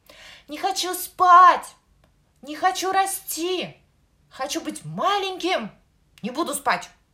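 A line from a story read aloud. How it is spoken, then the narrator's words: Child shouting louder. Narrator (Russian): Еще громче закричал малыш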